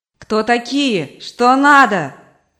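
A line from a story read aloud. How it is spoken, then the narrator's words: Shouting mother. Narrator (Russian): кричала мать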